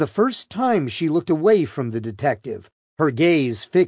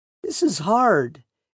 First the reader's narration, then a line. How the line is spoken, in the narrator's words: Arias said, her voice cracking